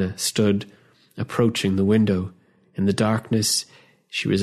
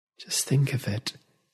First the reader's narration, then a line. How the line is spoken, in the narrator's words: said, her voice low, barely rising above a whisper